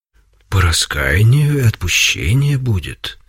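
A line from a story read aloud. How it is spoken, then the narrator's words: Gentle, kind. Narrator (Russian): ответил ласково Серафим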